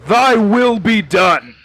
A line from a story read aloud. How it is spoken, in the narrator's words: just shouts